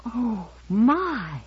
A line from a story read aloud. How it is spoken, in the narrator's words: Finally she whispered